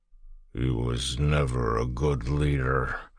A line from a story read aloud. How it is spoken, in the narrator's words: said in a slurred voice